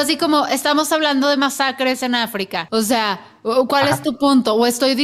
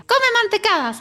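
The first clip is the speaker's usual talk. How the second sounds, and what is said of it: Mickey Mouse-like cartoon voice. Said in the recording (Spanish): “el osito bimbo que habla como Mickey ... es el único acento que me consta”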